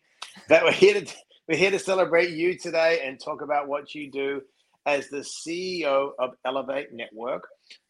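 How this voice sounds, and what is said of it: Australian accent. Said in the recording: “I've got an accent as well from Australia”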